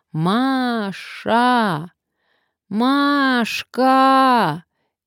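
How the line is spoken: Loud shout. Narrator (Russian): громко крикнула

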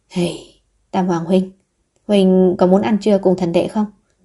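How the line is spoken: Sighing gentle invitation. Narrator (Vietnamese): Vũ Thụy An đọc ra sự cô đơn trong mắt hắn ta, bèn thở dài nói

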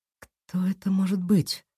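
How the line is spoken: Whisper. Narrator (Russian): прошептала Кира

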